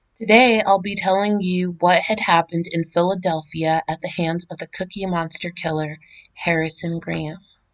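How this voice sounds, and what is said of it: Hoarse, strained voice. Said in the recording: “my voice is shredded”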